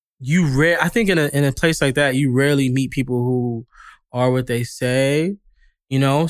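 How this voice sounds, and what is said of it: New York accent. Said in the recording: “I'm from New York, you know, obviously, LA people tell me I have an accent”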